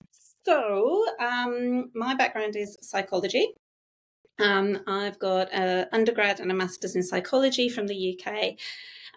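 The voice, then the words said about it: Non-Australian accent. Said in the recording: “I can hear by your accent that you clearly did not grow up in Australia.”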